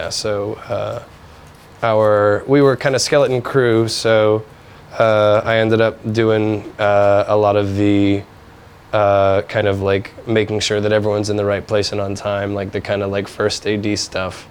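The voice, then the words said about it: Hoarse, weakened voice. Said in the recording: “I lost my voice”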